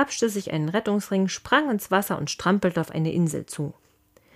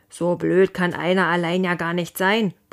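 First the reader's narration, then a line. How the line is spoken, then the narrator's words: Father bellowing. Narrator (German): brüllte Leons Papa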